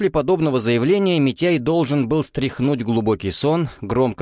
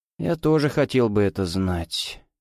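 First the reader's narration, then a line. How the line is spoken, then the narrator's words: Low muffled voice. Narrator (Russian): глухим голосом отозвался генерал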